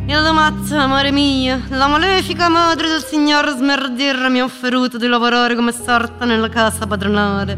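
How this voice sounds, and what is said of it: Character voice of a woman. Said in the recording (Italian): “con la voce di Zuleia dentro la testa”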